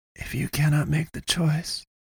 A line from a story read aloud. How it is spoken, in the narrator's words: breathed